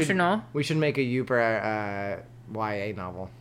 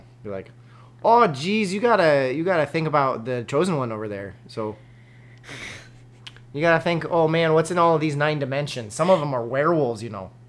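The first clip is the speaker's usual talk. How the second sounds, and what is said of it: Put-on Upper Midwest accent. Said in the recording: “my Uber accent ... Your Uber accent is great.”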